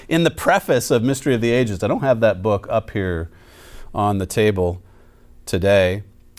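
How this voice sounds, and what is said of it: Slightly raspy, strained voice. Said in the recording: “My voice a little raspy today ... taking its toll on the vocal cords”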